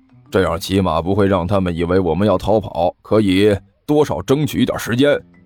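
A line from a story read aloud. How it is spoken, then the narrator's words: Low voice. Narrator (Chinese): 尼采低声说道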